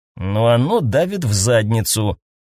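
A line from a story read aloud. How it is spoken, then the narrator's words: Grumbling. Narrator (Russian): проворчал Роберт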